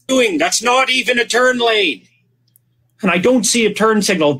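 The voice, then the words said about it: Spot-on Jordan Peterson impression. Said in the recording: “does an amazing voice impression of Jordan Peterson ... It is so freaky spot on”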